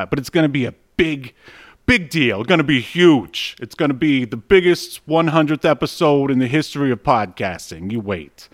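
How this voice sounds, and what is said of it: Imitates another person's voice. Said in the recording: “I'm imitating our President Trump ... I know my Trump needs some work”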